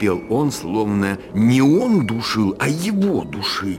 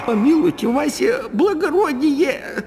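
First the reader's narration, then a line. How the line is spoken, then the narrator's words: Moaning. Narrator (Russian): Застонал было жид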